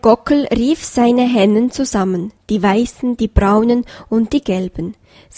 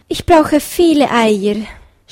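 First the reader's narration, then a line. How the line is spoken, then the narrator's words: Hare groaning. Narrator (German): stöhnte der Hase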